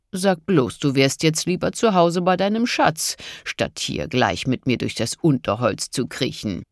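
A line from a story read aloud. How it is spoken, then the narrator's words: Mocking. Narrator (German): spottete Broders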